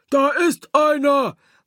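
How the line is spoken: Calling out. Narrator (German): Von der einen Seite rief's

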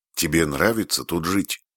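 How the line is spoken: Plain. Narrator (Russian): спросила Фрэнни

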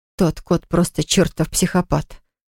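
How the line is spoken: Muttering. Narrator (Russian): пробормотала Поле

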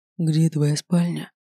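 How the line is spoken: Breathless exhale. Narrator (Russian): выдохнул Саймон, оторвавшись от моих губ

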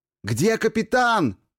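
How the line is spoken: Shouted over storm. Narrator (Russian): прокричал в ответ, но буря унесла мои слова

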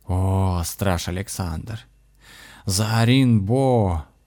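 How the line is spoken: Hissing greeting. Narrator (Russian): шипящим голосом поприветствовало оно шамана

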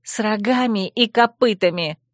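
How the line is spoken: Angry blurt. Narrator (Russian): в сердцах брякнула я

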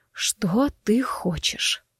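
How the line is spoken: Hoarse rasp. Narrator (Russian): прохрипела

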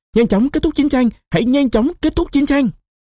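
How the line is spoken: Roaring crowd, some sobbing. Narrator (Vietnamese): Các chiến sĩ gào thét ầm ầm, có kẻ còn khóc nức nở, họ gào to

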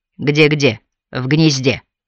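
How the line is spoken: Growled reply. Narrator (Russian): прорычала в ответ Камилла

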